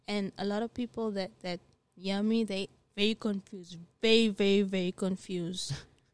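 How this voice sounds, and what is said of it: Unusual, hard-to-place accent. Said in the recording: “I have a weird accent ... my accent is really, really”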